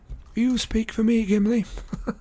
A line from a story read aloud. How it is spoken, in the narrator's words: laughed Legolas